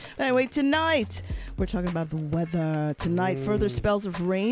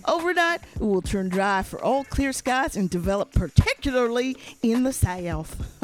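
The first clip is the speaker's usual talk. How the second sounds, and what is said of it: Put-on southern accent. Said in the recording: “Should I say this in the southern accent? ... That's a real southern accent. ... It's one of your best accents”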